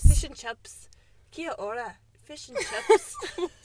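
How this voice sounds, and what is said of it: Put-on South African/New Zealand accent. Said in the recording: “We are smashing the accents ... I can't stop doing that accent ... South African ... it's kind of South African, but I am thinking, like, New Zealand”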